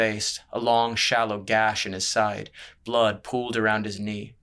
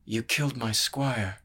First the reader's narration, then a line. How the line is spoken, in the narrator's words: he muttered